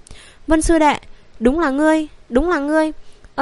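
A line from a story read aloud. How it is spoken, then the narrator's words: Trembling voice. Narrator (Vietnamese): giọng nói run rẩy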